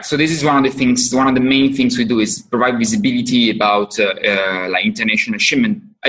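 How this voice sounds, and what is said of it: Italian accent. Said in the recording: “your accent is telling me you're from Italy”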